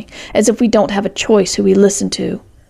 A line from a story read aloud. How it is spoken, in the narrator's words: said grimly